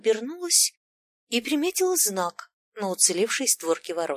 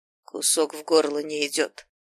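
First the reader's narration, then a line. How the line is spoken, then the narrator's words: Hoarse grumble. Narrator (Russian): хрипло проворчал знающий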